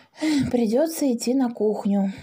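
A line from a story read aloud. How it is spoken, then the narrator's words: Sighing. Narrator (Russian): вздохнул Паша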